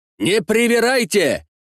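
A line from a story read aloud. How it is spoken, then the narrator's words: Nearly shouted. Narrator (Russian): чуть ли не выкрикнул английский посланник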